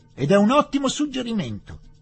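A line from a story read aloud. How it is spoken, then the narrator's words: Officer shouting. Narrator (Italian): gridò l'ufficiale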